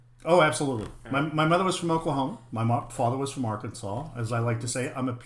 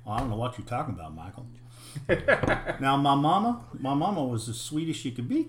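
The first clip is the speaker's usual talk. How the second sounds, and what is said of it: Put-on Southern hillbilly accent. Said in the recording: “you don't have the accent anymore. Can you still do the accent? ... purebred hillbilly”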